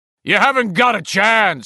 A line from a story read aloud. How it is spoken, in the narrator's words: he bellowed, seeing himself as Fearless Joe Friday of the LAPD in his mind's eye